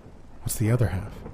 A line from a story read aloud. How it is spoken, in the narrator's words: he asked